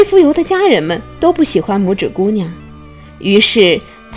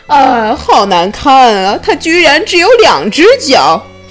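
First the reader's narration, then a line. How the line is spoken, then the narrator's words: Shrill scream. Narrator (Chinese): 他的姐姐尖叫了起来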